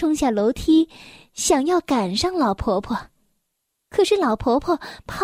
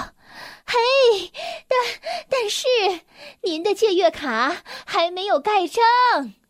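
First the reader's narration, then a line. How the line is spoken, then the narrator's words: Calling out. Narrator (Chinese): 贝克小姐喊道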